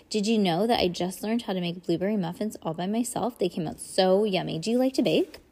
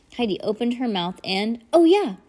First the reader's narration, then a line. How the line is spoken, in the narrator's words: blurted Bryce